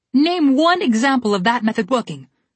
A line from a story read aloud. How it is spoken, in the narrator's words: Red yelled